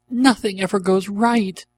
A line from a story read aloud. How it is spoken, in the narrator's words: she cried out